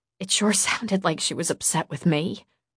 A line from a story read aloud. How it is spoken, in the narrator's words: I muttered under my breath